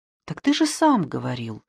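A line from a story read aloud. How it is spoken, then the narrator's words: Calm reply. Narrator (Russian): спокойно отозвался Шамбамбукли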